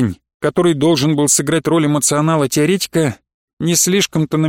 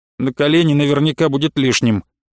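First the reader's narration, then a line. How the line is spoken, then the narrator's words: Gloomy reply. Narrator (Russian): Проф в ответ на наши взгляды мрачно сказал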